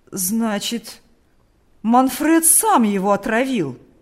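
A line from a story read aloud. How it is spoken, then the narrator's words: Old man's agitated exclamation. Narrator (Russian): воскликнул старик, дрожа от волнения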